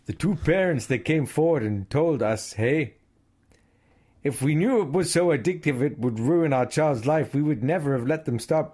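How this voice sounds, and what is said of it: Put-on Canadian accent. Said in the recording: “I can do you the quote. ... In a Canadian accent. ... well, Canadian.”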